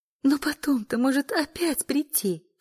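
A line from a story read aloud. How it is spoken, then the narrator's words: Sobbing. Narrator (Russian): всхлипывала Эля, прелестная даже в рыданиях и слезах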